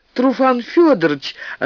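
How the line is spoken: Joyful girl's exclamation. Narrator (Russian): радостно воскликнула девочка

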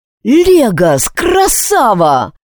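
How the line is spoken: Joyful shout. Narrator (Russian): радостно кричал Алекс

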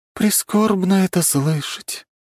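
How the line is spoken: Upset sigh. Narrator (Russian): расстроенно вздохнула девушка

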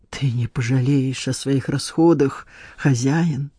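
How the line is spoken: Stranger's hoarse rasp. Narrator (Russian): прохрипел незнакомец

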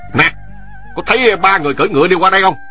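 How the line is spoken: Loud shouted question. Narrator (Vietnamese): Hắn lớn tiếng quát hỏi

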